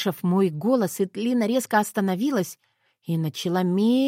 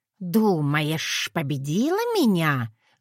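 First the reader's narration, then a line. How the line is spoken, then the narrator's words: Snake-like hiss. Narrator (Russian): зашипела Этлина совсем как змея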